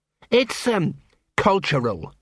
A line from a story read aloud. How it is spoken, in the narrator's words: said Sergeant Colon miserably